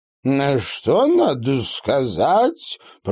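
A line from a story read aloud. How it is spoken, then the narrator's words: Sugary creaky voice. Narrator (Russian): проскрипела Ванесса со слащавой улыбкой благодетельницы сирых киборгов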